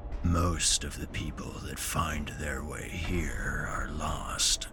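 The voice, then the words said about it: Very deep, grinding bass character voice. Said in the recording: “deep voice. It's a dialect comprised of bass tones being dragged through a corpse grinder”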